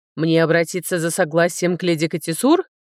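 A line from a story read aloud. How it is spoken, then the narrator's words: Mocking question. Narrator (Russian): насмешливо спросил генерал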